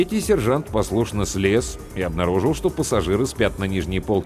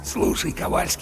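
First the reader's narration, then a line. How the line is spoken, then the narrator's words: Conspiratorial whisper in ear. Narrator (Russian): заговорщически прошептал в самое ухо третьего сержанта Чарли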